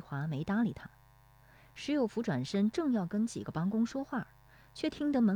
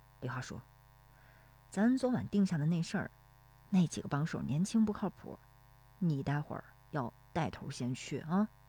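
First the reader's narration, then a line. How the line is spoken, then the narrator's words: Low voice. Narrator (Chinese): 低声说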